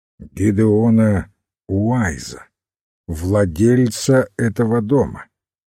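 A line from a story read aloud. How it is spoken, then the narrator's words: Firmer voice. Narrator (Russian): уже более твердым голосом ответил Хорн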